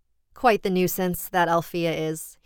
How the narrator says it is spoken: he chuckled fondly

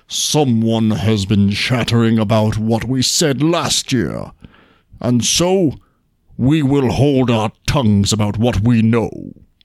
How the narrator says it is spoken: Bruin the bear was surly and growled and said

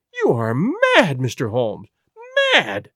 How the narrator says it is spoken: she cried at last

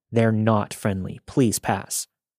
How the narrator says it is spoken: Despite my internal panic, I firmly said

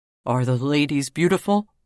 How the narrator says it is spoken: he asked anxiously

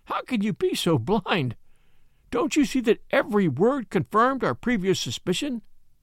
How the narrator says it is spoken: I cried

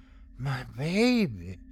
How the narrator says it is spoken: whispered

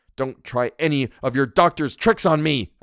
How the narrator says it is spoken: I cried, trembling with fury

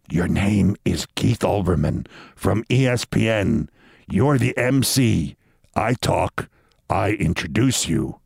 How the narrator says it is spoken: Giuliani leaned in at one point and whispered to me

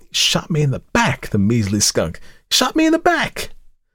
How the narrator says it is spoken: pausing often to rest his stiffening shoulder and to exclaim

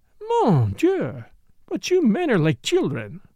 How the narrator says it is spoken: exclaimed Morel

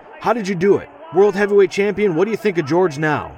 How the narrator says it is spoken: a reporter claws his way to the crowd and yells at me

